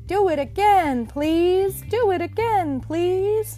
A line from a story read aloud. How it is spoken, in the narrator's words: Tom shouted to the taxi driver man in a loud voice to make him hear